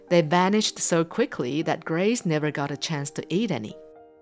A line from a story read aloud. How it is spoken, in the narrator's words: Desmond replied